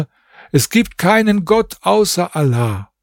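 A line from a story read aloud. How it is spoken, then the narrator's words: Calling out. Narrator (German): Ich rief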